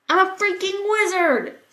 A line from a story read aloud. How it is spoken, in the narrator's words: Sam shouted